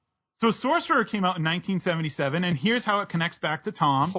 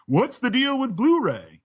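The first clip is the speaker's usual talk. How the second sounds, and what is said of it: Poor imitation of another person's voice. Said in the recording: “my very bad Seinfeld impression”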